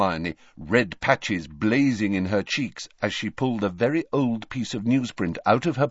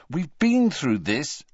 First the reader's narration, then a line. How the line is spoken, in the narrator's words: said Harry crossly